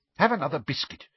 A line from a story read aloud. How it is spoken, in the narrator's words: she said irritably